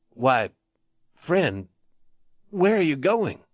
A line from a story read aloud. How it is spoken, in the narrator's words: he asked unsteadily